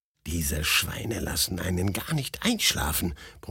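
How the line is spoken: Grumbling. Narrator (German): brummte ich

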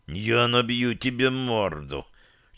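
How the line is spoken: Barely audible hiss. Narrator (Russian): чуть слышно прошипел рядом Дирон

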